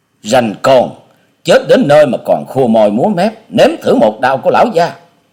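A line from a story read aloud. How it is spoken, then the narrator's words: Hot-tempered big man bellowing. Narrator (Vietnamese): Gã đại hán được gọi là Lão Tam kia có vẻ nóng nhất ở trong bọn, quát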